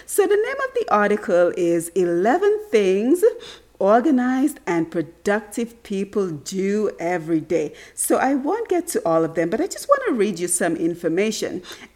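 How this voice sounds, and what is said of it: Raspy, congested voice. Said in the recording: “my voice is sounding a little bit raspy ... I'm a little congested today ... not as crystal clear as it normally is”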